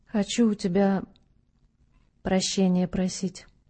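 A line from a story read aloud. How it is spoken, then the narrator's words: Muffled old man. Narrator (Russian): глухо ответил старец сквозь сомкнутые руки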